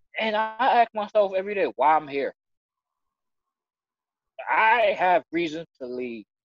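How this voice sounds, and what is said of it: Emotional, choked-up voice. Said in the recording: “I'm getting emotional. Sorry.”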